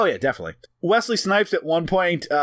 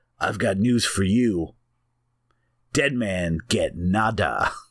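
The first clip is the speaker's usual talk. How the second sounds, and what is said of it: Wesley Snipes impression. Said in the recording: “in his Jamaican accent, which again I will not do, but I'll still do like a kind of Wesley Snipes voice”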